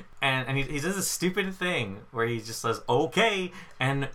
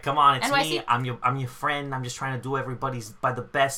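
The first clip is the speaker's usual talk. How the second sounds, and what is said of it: Exaggerated fake New York accent. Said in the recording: “he kind of speaks in this, like, fake-ass New York accent that we've been kind of doing a little while”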